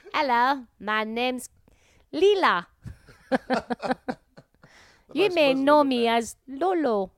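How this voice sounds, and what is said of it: Put-on accent. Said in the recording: “affecting an accent”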